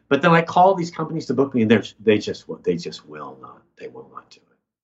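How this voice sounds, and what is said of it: American accent. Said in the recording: “American ... even with my accent”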